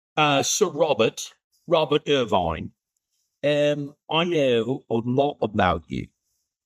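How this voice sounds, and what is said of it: Put-on English accent. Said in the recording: “That English accent”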